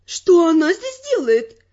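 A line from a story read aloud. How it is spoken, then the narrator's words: Exclaimed. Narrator (Russian): воскликнула женщина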